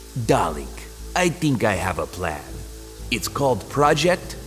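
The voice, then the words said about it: Fake Russian accent, Boris and Natasha. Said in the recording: “She adopted a fake Russian accent a la Boris and Natasha from Rocky and Bullwinkle.”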